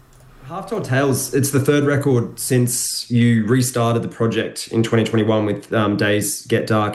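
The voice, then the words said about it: Congested, blocked-up sick voice. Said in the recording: “I was quite sick at the time, which you could probably hear in my voice, so I probably sound a little bit blocked up”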